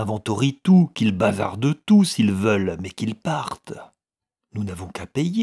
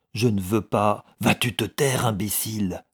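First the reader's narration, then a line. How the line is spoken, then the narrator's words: Murmuring. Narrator (French): murmura Guiret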